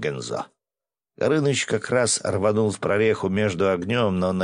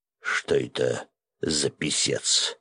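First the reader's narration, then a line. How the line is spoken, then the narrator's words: Hoarse whisper in ear. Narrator (Russian): Осипшим голосом прошептал мне на ухо Свят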